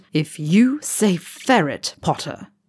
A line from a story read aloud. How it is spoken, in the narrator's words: Draco grits through his teeth